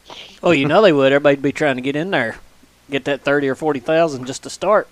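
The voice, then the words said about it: Southeastern Kentucky accent. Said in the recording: “You got an accent. You from Texas or somewhere? ... I'm from southeastern Kentucky ... I thought you had a little bit of an accent there ... I just start catching your accent there a little bit ... It comes out every once in a while”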